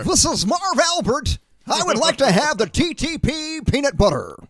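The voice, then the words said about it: Celebrity impersonation voice. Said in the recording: “your best celebrity impersonation”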